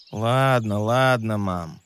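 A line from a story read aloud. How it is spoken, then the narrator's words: Grumbling. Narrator (Russian): проворчал Лео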